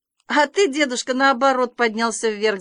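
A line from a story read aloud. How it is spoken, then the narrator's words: Laughing. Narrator (Russian): засмеялся Санька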